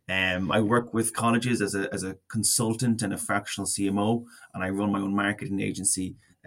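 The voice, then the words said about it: Slight noticeable accent. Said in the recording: “you have a little bit of an accent.”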